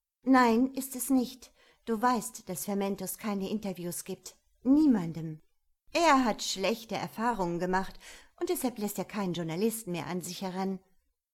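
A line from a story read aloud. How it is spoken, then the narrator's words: Loud. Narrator (German): Laut, sagte Julia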